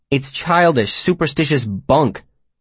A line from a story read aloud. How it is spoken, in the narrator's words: Simon said testily